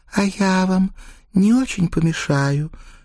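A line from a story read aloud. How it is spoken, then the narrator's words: Sweet sing-song voice. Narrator (Russian): ангельским голоском пропела Маргарита Афанасьевна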